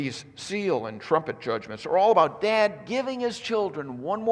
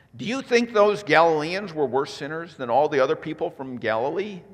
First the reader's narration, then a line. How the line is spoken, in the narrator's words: Jesus asked